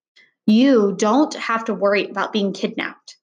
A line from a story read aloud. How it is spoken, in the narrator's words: she said in her usual firm voice